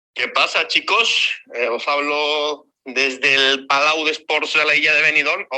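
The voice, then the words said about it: Put-on regional Spanish accent. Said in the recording (Spanish): “Ojo al acento, eh, eh. Te ha gustado, ¿eh?”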